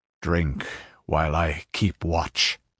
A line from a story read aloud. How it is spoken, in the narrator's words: he muttered